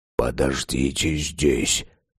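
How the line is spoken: Whisper, priest. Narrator (Russian): Прошептал священник

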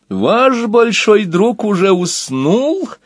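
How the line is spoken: Laughing. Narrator (Russian): Вождь Ксимирогов рассмеялся

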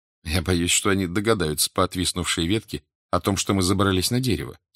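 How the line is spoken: Plain. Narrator (Russian): сказал я

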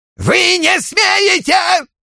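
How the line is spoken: Yelling. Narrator (Russian): вопил Беннет

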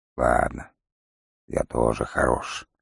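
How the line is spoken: Gruff grumble. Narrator (Russian): проворчал волкодав

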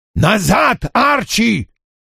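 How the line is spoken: Roaring. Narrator (Russian): проревел Вульф

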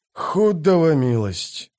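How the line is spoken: Groaning. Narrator (Russian): простонал Дукер

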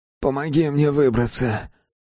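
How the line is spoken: Hoarse wheeze. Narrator (Russian): прохрипел он

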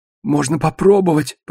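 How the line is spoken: Hoarse rasp. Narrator (Russian): прохрипел он

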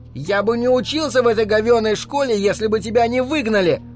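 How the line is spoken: Shouted. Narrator (Russian): выкрикнул он

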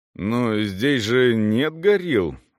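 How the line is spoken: Unconvincing objection. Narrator (Russian): возразил он малоубедительным тоном

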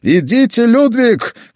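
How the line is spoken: Shouted. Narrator (Russian): крикнул он

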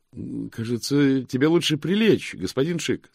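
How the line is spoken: Cheerful. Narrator (Russian): сказал Мокрец бодро

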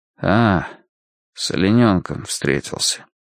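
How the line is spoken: Dejected, sinking voice. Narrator (Russian): произнес он упавшим голосом, слишком живо вспомнив удар столкновения

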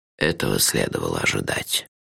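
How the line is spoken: Gentle. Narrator (Russian): мягко сказал Лонли Локли

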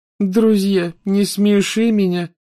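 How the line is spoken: Contemptuous, through clenched teeth. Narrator (Russian): презрительно процедила Лаванда

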